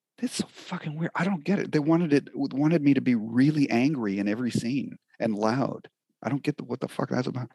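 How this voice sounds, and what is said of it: Quiet, hushed voice. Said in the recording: “in a quiet voice”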